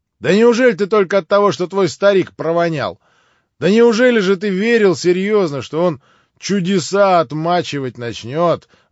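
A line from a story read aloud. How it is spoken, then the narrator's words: Amazed exclamation. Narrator (Russian): воскликнул Ракитин, опять переходя в самое искреннее изумление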